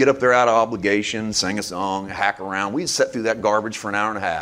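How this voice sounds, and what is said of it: Usual voice. Nothing is said of it.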